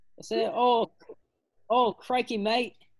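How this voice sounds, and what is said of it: Put-on Australian accent. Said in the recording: “you have to say everything after this point with an Australian accent ... Oh, that was really good.”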